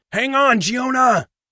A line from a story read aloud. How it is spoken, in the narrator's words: Atticus yelled at Kronos